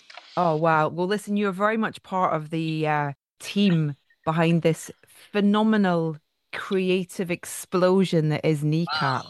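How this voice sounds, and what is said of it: Scottish accent. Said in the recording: “am I sensing a bit of an accent? ... there's a Celtic connection there. I'm Scottish”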